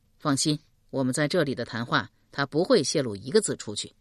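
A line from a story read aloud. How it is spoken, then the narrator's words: Calm, indifferent. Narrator (Chinese): 阮籍淡淡道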